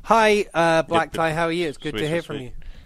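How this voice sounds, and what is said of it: Put-on English accent. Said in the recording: “I did my English accent ... People still going to think I'm from the UK?”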